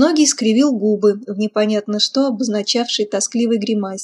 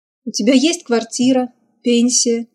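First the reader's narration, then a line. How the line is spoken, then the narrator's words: Skeptical snort. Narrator (Russian): Безногий хмыкнул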